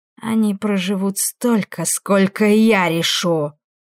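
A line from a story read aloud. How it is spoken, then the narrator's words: Growled, newcomer. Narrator (Russian): рыкнул пришедший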